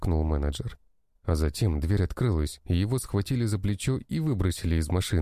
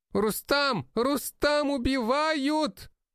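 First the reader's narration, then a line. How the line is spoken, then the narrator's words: Man shrieking. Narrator (Russian): завизжал невысокий мужчина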